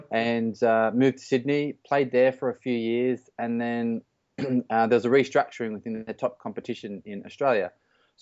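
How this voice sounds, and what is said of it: Australian accent. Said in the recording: “which we call it in Australia as well, which the funny accent that I've got at the moment is from”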